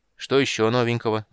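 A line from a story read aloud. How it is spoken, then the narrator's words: Gloomy, expecting bad news. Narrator (Russian): мрачно спросил, всем своим видом показывая, что ничего хорошего он не ждет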